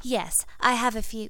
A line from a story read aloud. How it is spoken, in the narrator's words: Ginny said nervously